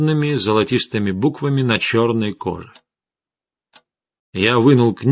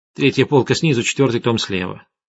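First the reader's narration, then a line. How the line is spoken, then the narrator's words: Irritated. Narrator (Russian): раздраженно сказала Арина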